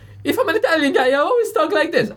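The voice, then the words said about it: Goofy caricatured Italian accent. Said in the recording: “anybody doing that goofy ... this caricature voice”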